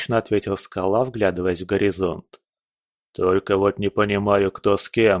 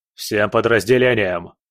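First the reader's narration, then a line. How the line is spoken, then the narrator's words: Bark over radio. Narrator (Russian): рявкнул он в рацию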